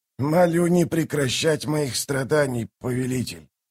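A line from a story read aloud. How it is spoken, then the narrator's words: Mumbled. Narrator (Russian): промямлил Мунук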